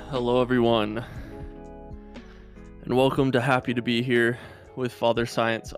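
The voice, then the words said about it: Out of breath, breathless speech. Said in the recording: “I'm out of breath.”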